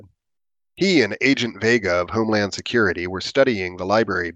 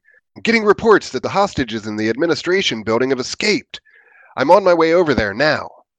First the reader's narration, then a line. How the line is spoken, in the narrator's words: Chief Hartwell of the Greenleaf PD said excitedly